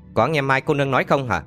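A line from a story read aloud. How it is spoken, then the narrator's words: Harsh, stern. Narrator (Vietnamese): Hạng Chân gằn giọng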